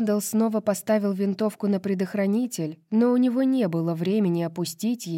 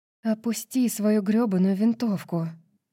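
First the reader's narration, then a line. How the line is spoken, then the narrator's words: Breathed out. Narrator (Russian): выдохнула Эмбер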